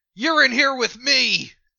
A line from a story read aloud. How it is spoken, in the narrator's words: I'm going to yell